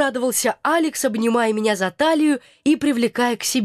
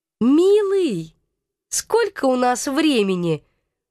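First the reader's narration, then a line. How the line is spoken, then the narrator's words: Cooing. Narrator (Russian): Воркующим тоном поинтересовалась я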